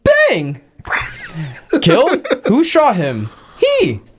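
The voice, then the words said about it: Flamboyant Cuban waiter voice. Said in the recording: “he's a very, very unnecessary flamboyant Cuban waiter ... This is exactly how he sounded in the movie”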